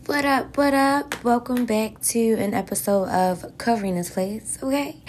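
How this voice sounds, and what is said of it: Slightly raspy voice. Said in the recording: “my voice sounds a little bit raspy”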